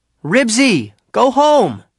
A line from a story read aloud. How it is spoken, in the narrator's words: called out